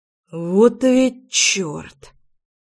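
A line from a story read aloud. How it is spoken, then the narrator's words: Doctor's exhaled exclamation. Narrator (Russian): выдохнул врач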